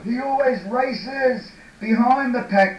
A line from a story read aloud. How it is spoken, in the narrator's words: yelled Georgie